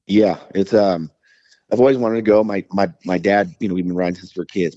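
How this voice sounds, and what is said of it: Rough, sick-sounding voice. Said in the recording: “I started feeling sick ... I have some body aches. And obviously my voice is jacked up.”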